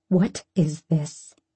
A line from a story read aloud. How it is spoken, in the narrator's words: she says through gritted teeth